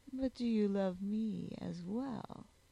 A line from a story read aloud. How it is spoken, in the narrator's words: He groaned